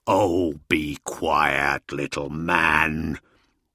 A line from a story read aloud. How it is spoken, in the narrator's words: the Wolf King growled